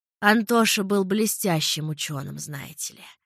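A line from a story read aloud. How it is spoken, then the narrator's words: Old woman sighing. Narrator (Russian): вздохнула старушка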